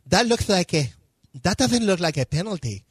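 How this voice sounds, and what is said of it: Mock Castilian Spanish accent. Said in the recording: “What did you say in your Castilian accent?”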